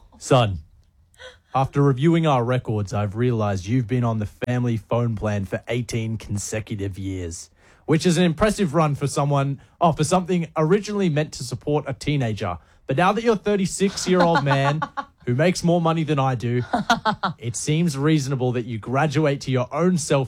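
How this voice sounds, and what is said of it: Put-on dad voice. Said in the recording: “do a dad voice? ... Yeah, do a dad voice.”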